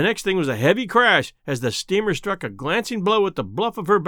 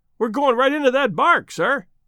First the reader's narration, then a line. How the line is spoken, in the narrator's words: Another voice cried warningly